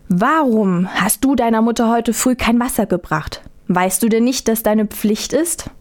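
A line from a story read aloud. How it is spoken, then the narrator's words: Stern mother speaking. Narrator (German): sagte die Mutter streng zu ihrer Tochter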